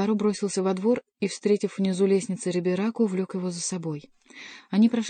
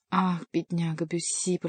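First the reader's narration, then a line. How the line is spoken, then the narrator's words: Moaning lament. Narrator (Russian): простонал Антраге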